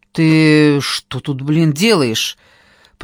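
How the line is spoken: Hoarse, irritated, close. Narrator (Russian): Прозвучал над моим ухом хриплый, раздраженный голос

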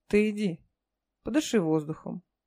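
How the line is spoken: Gentle urging. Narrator (Russian): ласково подтолкнула соседка в косынке

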